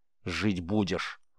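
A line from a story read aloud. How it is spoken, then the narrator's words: Angry curt remark. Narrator (Russian): зло бросил Рис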